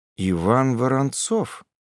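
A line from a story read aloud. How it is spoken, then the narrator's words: Mutter under breath. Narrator (Russian): пробормотал себе под нос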